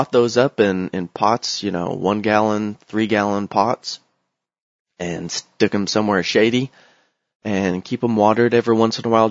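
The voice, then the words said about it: Rough, hoarse voice. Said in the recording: “Sorry if my voice is sounding rough. I've been sick”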